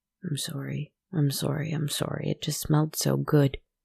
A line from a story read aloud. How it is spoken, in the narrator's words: he muttered